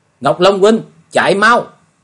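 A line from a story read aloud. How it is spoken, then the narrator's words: Loud cry. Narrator (Vietnamese): lớn tiếng kêu lên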